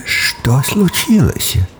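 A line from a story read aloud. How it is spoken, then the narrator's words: Sleepy question. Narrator (Russian): сонным голосом спросил Эмос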